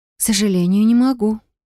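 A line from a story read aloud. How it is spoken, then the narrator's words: Feigned sigh, suppressed anger. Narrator (Russian): притворно вздохнула я, стараясь унять злость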